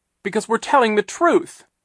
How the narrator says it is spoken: Klaus cried

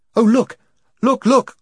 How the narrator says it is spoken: cried Jill

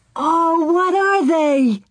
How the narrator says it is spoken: Laura cried

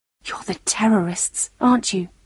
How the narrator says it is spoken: She whispered

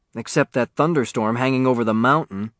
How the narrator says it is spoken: Dan Martin answered

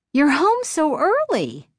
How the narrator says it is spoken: Chris exclaimed

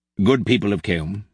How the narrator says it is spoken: he said

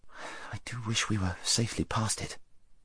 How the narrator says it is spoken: muttered Shasta to Wynne

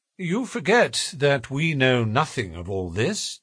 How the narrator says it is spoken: said Holmes, quietly

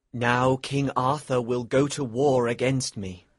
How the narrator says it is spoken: he said sadly

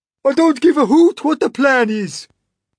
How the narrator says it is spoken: cried the earthworm

